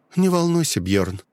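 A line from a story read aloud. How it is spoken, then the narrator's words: Calm. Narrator (Russian): ответила она спокойно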